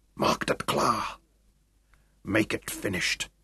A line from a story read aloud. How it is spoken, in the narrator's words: Larue told him quietly